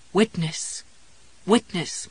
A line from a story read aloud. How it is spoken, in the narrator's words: Marvin pleaded, fading out now